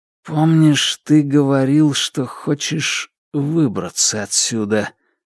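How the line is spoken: Muttering. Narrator (Russian): пробормотал Ду

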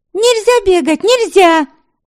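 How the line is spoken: Indignant shouting. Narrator (Russian): Возмущенно кричала Веремила, шуба на голове мешала ей

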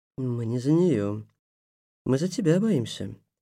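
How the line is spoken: Calm. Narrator (Russian): спокойно сказала ведьма

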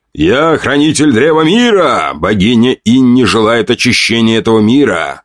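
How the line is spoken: Loud. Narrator (Russian): громко произнес я

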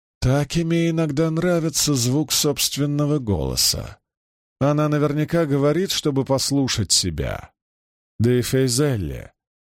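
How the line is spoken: Gloomy. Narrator (Russian): мрачно добавила Мирелли

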